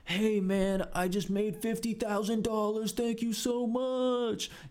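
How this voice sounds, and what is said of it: Imitates a bad actor's testimonial. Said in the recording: “testimonials from bad actors. And these actors are terrible ... I will never do that impression again”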